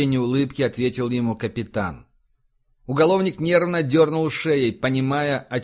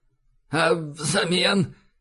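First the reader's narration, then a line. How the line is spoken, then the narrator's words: Husky inquiring. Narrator (Russian): хрипловато поинтересовался Лавкач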